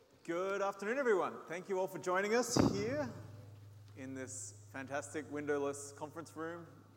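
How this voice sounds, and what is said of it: Australian accent. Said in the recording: “as you can tell from my accent. Australian”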